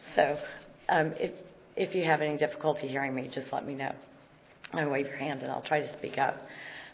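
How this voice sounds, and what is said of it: Hoarse, croaky voice. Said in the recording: “apologize for my voice, though I think everybody can hear me ... you were supposed to kiss the frog, not swallow it”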